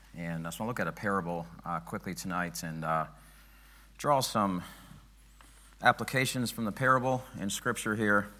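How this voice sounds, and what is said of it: Hoarse, strained voice. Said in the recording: “Losing my voice a little bit”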